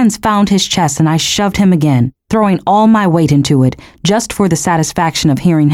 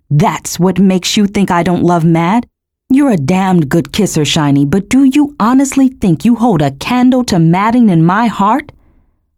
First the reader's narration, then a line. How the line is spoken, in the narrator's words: laughed, my own voice echoing harshly in my ears